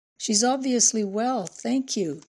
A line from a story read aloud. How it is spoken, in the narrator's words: She sniffed, said happily